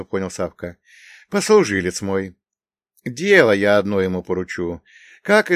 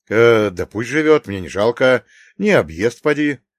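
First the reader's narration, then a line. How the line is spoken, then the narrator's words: Snorting. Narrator (Russian): хмыкнул Савка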